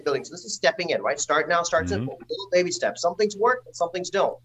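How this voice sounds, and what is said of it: Predominantly American accent. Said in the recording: “I'm very fortunate that I have a predominantly American accent.”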